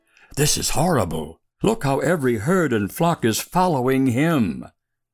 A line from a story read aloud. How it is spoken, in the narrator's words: the powerful and popular lead sheep, the bellwethers, whispered